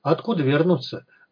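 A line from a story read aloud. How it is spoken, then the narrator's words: Calm, composed. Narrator (Russian): Вадим уже взял себя в руки и говорил спокойно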